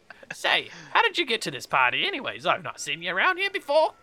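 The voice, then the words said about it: Put-on character accent. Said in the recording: “What accent is that? I'm hating this so much.”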